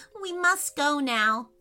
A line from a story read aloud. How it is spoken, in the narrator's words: said Remi sadly